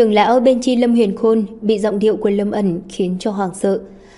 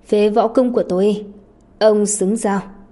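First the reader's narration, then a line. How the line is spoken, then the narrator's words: Cold. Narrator (Vietnamese): Lâm Ẩn anh lạnh lùng nói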